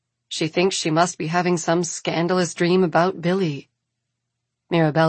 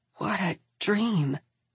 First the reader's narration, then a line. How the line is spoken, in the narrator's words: she whispers